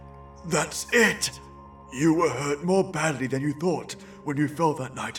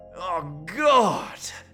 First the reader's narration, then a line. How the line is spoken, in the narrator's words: Curtin groaned